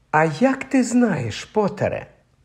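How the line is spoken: Gentle objection. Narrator (Ukrainian): лагідно заперечила МакГонагал

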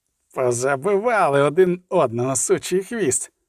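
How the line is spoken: Man groaning. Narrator (Ukrainian): простогнав хват

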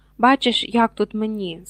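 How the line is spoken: Plain. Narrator (Ukrainian): сказав Гаррі

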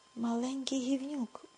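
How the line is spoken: Furious woman hissing. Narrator (Ukrainian): прошипіла розлючена жінка

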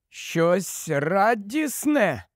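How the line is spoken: Cracked questioning voice. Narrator (Ukrainian): перепитав надтріснутим голосом

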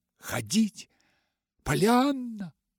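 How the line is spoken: Exclaim. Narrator (Russian): воскликнул тем временем Джон Пендлтон

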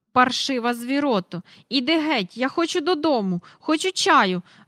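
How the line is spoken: Shrieking. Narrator (Ukrainian): верещала

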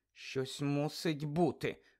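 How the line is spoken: Muttering. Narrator (Ukrainian): бурмотіла Герміона

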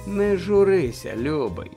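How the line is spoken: Gentle woman's voice. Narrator (Ukrainian): лагідно звернулася жінка

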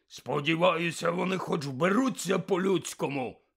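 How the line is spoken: Man's sudden bark. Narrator (Ukrainian): відразу ж гаркнув дядько

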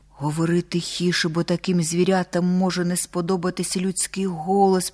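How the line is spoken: Whisper. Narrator (Ukrainian): прошепотів Бись

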